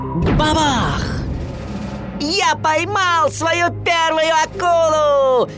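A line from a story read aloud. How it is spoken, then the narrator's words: Excited shout. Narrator (Russian): возбужденно закричал Уорд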